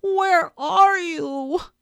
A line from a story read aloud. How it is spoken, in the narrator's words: cried Christopher Robin